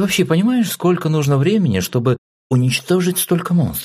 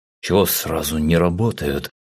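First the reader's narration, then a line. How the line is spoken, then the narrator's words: Offended mutter. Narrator (Russian): обиженно буркнул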